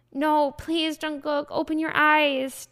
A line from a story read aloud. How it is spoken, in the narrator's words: begged again and again, screaming in pain